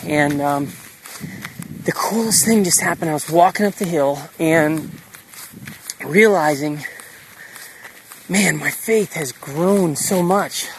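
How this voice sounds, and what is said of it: Out of breath speaking. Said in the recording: “I'm walking up a steep hill. That's why I'm out of breath.”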